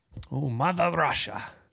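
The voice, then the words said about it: Terrible put-on Russian accent. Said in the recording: “That was a terrible accent.”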